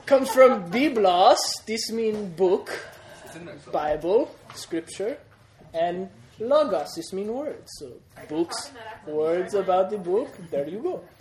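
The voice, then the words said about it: Put-on accent. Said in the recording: “I'm not talking that accent all day”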